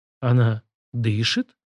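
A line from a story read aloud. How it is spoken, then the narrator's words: Cracked voice. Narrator (Russian): над треснутым голосом спросил я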